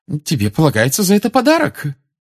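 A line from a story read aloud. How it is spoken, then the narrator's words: Loving exclamation. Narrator (Russian): с любовью воскликнула миссис Уизли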